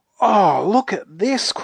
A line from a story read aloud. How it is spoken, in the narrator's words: cried Joe in delight